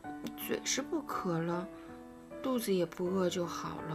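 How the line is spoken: Low muttering. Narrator (Chinese): 匹诺曹像块海绵似的吸饱了水，然后擦着嘴，低声嘟囔说

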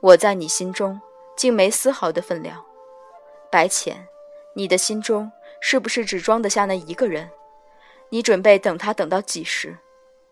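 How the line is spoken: Flat, emotionless. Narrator (Chinese): 瞧不出悲，也瞧不出喜，只继续淡淡道

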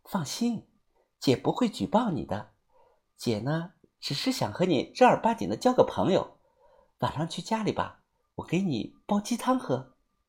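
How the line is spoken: Soft, gentle voice. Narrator (Chinese): 看我脸色不好看，他声音温柔，又小声的说

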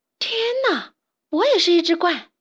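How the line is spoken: Loud shocked cry. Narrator (Chinese): 伊莎贝拉 大叫起来

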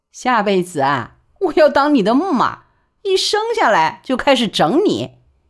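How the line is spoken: Laughing. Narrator (Chinese): 万小景便笑说

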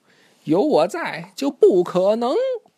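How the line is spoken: Shouting. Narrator (Chinese): 巴克队长冲呱唧喊道

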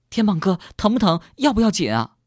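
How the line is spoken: Gentle, urgent, Shanghai accent. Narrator (Chinese): 小敏的声音温柔而急切，小敏的上海普通话那么好听

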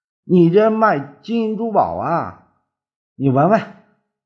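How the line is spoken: Startled cry. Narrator (Chinese): 那人惊叫起来

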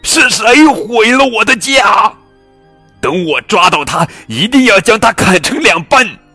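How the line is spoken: Bear roaring. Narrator (Chinese): 大熊跳起来大吼

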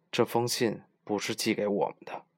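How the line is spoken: Low voice. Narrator (Chinese): 他低声说

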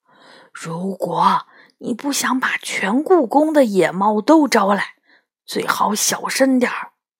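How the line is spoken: Hushed. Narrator (Chinese): 他压低声音说

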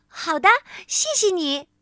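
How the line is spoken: Loud. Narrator (Chinese): 她大声地说

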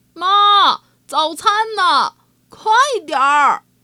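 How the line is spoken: Several voices, loud calling. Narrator (Chinese): 他们仨很大声的在呼唤猪太太

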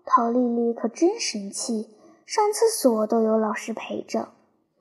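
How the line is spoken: Whispered muttering. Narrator (Chinese): 我和清流就悄悄地嘀咕说

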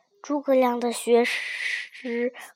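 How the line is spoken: Angry yet admiring. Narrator (Chinese): 周瑜……虽然气得脸色发青，脸色发青，却又不得不感叹地说

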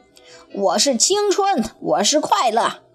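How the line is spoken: Panting question. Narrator (Chinese): 他喘着粗气问

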